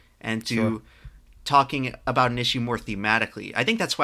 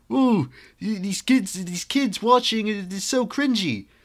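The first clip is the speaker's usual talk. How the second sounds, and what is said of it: Put-on generic British accent. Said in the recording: “No, it's generic British leafy clone.”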